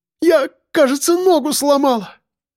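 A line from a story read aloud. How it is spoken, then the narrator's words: Moaning in pain. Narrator (Russian): простонала она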